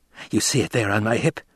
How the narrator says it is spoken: Feyd-Rautha whispered

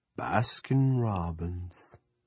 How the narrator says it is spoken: Roger said dreamily

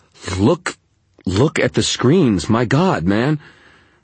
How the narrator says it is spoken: my voice was coming out in a high, panicky tone

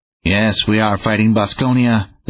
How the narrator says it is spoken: coldly clear

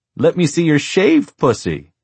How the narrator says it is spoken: giggled harder

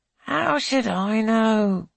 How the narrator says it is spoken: She groans

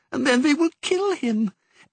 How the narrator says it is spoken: wailed Perdita

